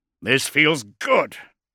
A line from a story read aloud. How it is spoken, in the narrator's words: grunted Thane